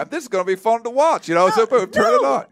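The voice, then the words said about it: Put-on Southern twang. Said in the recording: “got a Southern twang”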